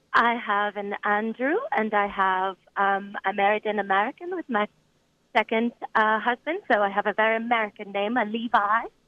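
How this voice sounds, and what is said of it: French accent. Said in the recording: “I think this accent is fake ... her Frenchness”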